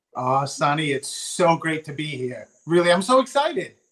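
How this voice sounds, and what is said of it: Rhode Island, New York-like accent. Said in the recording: “I can hear your accent. So is it, I think maybe Boston or somewhere on the East Coast ... I'm from Rhode Island, but we talk really like New Yorkers”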